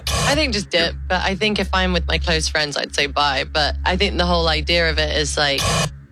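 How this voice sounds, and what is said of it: British accent. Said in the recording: “Obviously a British accent.”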